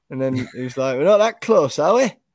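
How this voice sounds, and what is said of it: Put-on Scottish accent. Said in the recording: “I've just said that, but in a Scottish accent.”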